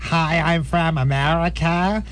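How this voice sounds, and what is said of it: Flat fake American accent. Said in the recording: “the generic flat ... I hate that British fake accent”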